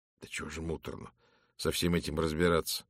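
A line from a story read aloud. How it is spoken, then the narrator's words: Weary sigh. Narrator (Russian): вздохнул инспектор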